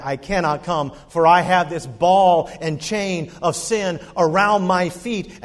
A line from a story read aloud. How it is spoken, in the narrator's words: that man, who was known for his vile life, shouted back